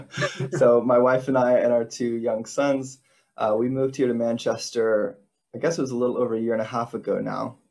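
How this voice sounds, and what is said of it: Non-British accent. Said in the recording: “as you might be able to tell from my accent, I didn't grow up here in Britain”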